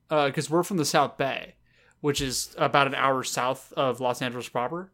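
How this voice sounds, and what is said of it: Southern California surfer accent. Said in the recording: “our California or our Southern California accents are bouncing off each other hard tonight ... our accent is even different than the normal LA accent ... The South Bay accent is like surfer ... the shitty surfer bro accent”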